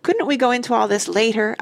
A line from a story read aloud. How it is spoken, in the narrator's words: I begged